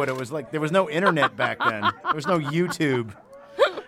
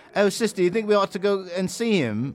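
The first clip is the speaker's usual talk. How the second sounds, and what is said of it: Made-up British, Cockney-like accent. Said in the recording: “I just made up an accent... some version of like a bunch of British things... it's like Cockney or something”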